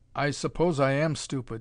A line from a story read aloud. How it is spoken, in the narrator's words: he said dryly